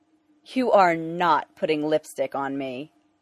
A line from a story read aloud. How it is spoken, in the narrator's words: Dick says firmly